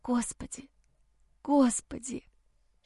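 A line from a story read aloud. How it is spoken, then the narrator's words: Whispered. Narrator (Russian): шептала я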